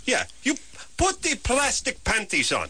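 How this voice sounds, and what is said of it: Put-on Eastern European accent. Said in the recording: “Very a very good Eastern European accent ... Indeterminate Eastern European”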